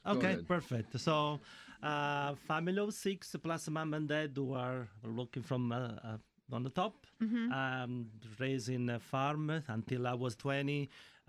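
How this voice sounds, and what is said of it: Italian accent. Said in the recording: “Maybe you're the missing Italian Beatle ... this accent is not from Gaithersburg”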